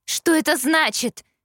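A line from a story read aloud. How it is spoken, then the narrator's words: Yelling. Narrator (Russian): заорала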